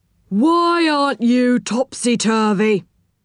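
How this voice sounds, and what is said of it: Stern policeman character voice. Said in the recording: “in a stern voice.”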